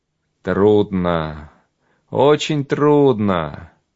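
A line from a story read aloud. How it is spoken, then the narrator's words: Sighing. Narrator (Russian): вздохнул он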